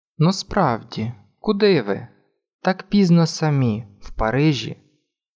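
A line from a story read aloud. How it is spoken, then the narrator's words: Calm question, male. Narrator (Ukrainian): Ще раз спокійно спитав він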